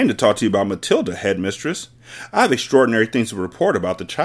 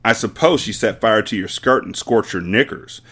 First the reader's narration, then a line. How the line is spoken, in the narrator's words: Miss Trunchbull snorted